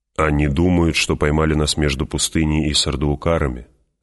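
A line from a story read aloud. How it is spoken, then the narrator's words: Plain. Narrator (Russian): ответил Пауль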